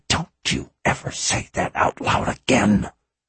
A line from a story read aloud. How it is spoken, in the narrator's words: hissed